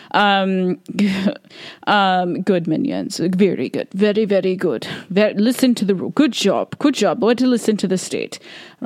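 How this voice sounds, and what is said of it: Unidentifiable put-on accent. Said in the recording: “I don't know what accent that was.”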